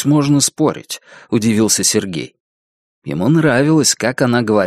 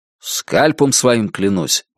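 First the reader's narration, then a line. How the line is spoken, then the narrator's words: Plain. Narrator (Russian): сказал Бабкин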